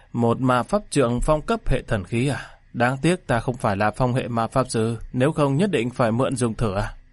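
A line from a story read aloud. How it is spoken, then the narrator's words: Sighing. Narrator (Vietnamese): Hắc Dạ Tắc thở dài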